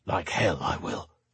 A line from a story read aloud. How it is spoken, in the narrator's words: he muttered, his fingers closing around the top rung for a final pull-up